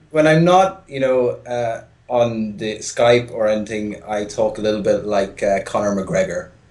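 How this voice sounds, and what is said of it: Softened Irish accent. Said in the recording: “this is my Irish phone voice ... Turns into a little bit of a Dublin accent ... From Kildare”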